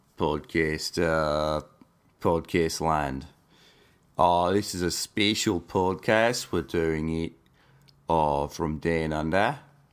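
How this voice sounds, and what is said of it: Deep, sultry morning voice. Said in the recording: “I just woke up, so I've got what's called morning voice ... it's a very deep and sultry”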